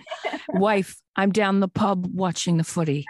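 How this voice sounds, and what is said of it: Put-on British accent. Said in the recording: “in a British accent”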